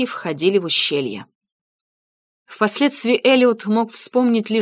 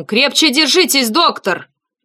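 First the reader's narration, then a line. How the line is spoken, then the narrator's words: Shouted. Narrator (Russian): Кахега крикнул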